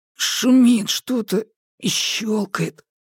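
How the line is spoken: Wheezing rasp. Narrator (Russian): просипел Маркус

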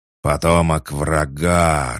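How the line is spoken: Creature growling. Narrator (Russian): рычала тварь

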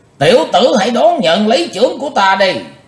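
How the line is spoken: Thunderous roar. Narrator (Vietnamese): lão đại ác ma quát như sấm nổ

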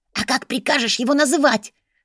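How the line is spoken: Hissed. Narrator (Russian): зашипела Бри

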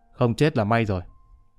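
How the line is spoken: Calm, indifferent reply. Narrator (Vietnamese): Người thanh niên thản nhiên trả lời

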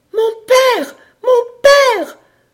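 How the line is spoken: Piercing woman's cry. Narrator (French): s'écria une voix perçante, une voix de femme au milieu du brouillard

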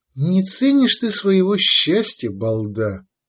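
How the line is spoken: Relieved sigh. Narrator (Russian): облегченно вздохнула Мара

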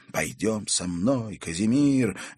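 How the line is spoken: Ardent exclamation. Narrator (Russian): горячо воскликнул он

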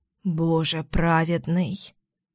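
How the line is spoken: Embarrassed mutter. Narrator (Russian): Бормочу я, желая, чтобы сиденье поглотило меня целиком

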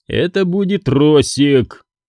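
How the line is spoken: Uncertain. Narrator (Russian): неуверенно сказал

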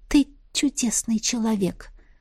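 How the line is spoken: Whisper. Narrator (Russian): шепнула Настя

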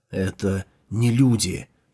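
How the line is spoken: Whispered reply. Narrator (Russian): также шепотом ответил Джао Юньлань

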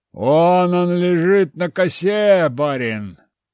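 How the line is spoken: Joyful rough bass exclamation. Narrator (Russian): раздался радостный вопль, и кто-то воскликнул грубым басом

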